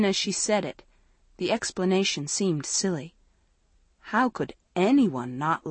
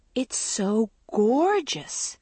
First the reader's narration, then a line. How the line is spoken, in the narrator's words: Andrea gasped